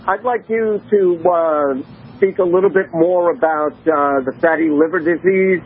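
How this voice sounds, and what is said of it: New York accent. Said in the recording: “You don't sound like you're from Russia, though. ... New York, maybe. ... I can't hide that accent.”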